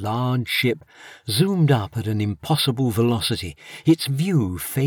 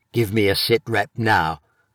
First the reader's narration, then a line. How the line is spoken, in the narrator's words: barked the chief officer through the speakers